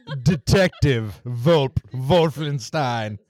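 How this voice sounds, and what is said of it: Creepy put-on German accent. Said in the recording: “you have to say it with that creepy German accent”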